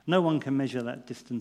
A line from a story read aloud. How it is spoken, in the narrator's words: he said